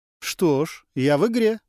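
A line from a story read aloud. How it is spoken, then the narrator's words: Forced cheerfulness. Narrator (Russian): преувеличенно бодро произнес Гастон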